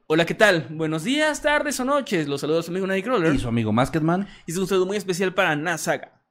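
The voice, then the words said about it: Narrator voice. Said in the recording (Spanish): “Ojalá me manden saludo con voz de narrador.”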